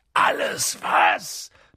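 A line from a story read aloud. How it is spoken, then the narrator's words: Thundering. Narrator (German): donnerte Hagrid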